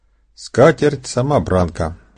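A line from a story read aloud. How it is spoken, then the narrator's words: Plain. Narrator (Russian): сказала она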